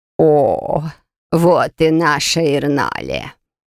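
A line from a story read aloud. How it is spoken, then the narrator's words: Sugary drawl, old woman. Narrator (Russian): приторно протянула бабушка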